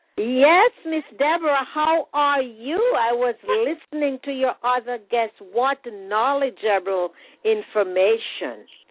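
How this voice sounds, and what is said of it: Caribbean accent. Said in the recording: “You'll hear that beautiful accent as she comes on from the Caribbean.”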